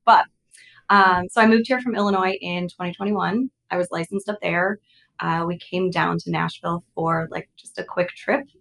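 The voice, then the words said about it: Slightly raspy voice with vocal fry. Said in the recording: “a little bit of vocal fry”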